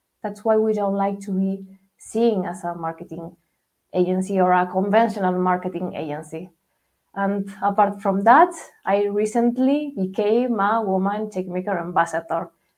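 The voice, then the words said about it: Spanish accent. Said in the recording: “where does my accent come from, I'm based in Spain. I'm located in Madrid.”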